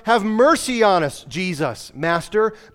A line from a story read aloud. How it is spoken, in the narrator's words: he had cried out